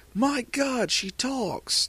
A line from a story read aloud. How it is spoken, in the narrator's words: Toji yelled